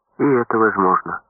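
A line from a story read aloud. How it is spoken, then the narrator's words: Calm. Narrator (Russian): спокойно сказала Лаврова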